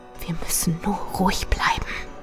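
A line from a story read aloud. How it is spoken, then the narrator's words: Whisper. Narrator (German): flüsterte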